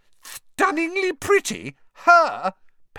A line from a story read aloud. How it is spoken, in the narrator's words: Pansy Parkinson had shrieked